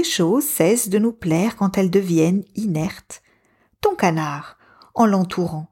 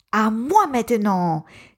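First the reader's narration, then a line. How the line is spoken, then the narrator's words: Exclaimed. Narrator (French): s'écrie Pablo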